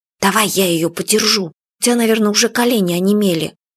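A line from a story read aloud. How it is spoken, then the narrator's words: Whisper. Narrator (Russian): И Юля прошептала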